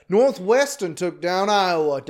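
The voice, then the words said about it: Put-on Southern accent. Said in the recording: “Don't know why I slipped into a Southern accent for that, if that was a Southern accent. ... certainly an interesting accent”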